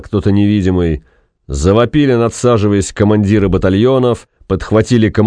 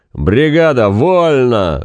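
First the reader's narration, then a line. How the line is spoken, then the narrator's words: Sudden loud booming yell. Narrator (Russian): заорал вдруг зев зычным голосом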